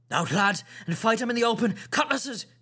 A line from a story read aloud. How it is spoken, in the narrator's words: cried the captain